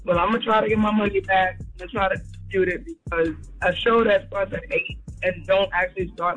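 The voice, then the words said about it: Tired-sounding voice. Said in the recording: “That's why I sound tired.”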